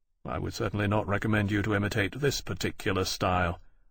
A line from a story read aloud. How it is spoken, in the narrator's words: Lawrence said dryly